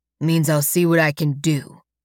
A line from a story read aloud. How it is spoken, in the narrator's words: he says gruffly